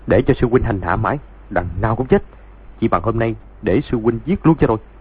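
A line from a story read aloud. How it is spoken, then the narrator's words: Harsh, gritted voice. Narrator (Vietnamese): Doãn Chí Bình gằn giọng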